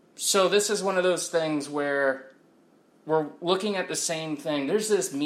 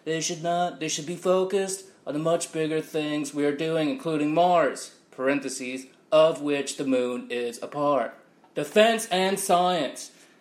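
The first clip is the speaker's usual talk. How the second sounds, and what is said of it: Weak Donald Trump impression. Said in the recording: “I should read it as him, huh? ... I'm not good at impressions ... that was my Donald Trump impression. So that stunk”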